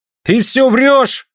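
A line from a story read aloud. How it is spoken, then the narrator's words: Shouted. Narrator (Russian): крикнул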